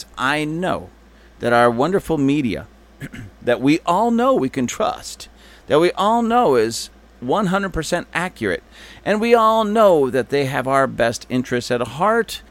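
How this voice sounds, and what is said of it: Sarcastic mock-praising tone. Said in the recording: “You do realize I'm being facetious. ... I'm being sarcastic.”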